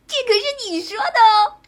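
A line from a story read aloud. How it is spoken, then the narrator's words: Excited shout. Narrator (Chinese): 小阎王精神又一振，大叫道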